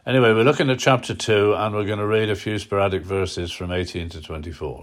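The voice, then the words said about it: Hoarse, sore-throated voice. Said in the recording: “Please excuse my voice. I've got a bit of a throat today.”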